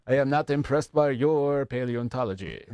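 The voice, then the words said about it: Put-on French accent. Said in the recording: “Is it going to be the French accent”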